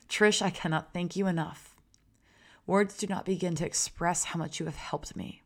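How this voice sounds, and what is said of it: Tearful, wavering voice. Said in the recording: “I'm tearing up. If you guys hear the change in my voice, it's because I'm trying not to cry.”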